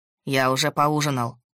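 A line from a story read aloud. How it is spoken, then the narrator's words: Cold. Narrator (Russian): Холодно, произнес он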